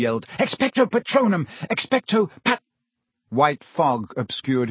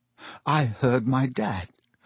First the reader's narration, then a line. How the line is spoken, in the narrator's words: Harry mumbled